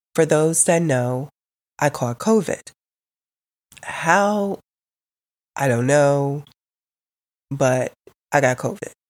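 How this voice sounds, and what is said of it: Sick-sounding, affected voice. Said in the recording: “excuse my voice.”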